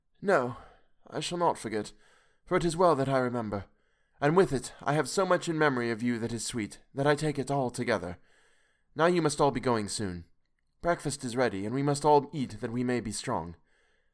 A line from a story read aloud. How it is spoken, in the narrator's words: looking at him through her tears, said hoarsely